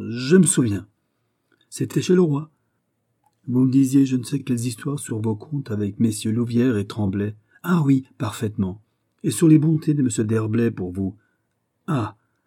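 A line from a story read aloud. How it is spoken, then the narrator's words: Exclaimed. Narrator (French): s'écria Aramis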